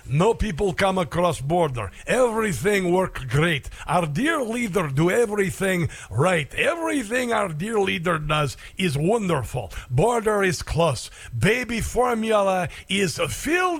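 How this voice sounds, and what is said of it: Put-on Russian accent. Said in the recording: “not a bad little Russian accent”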